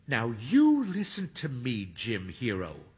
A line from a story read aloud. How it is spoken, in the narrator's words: Hermione says sternly